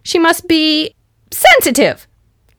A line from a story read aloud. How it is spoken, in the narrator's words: yelled Reggie